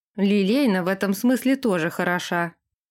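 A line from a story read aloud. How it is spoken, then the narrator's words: Short laugh. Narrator (Russian): хохотнул Дерек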